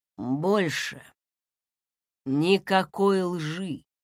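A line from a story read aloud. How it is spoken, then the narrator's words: Tired voice. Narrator (Russian): сказал Консин усталым голосом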